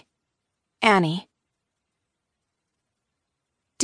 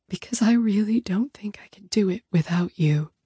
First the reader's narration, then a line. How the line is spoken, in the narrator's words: I whisper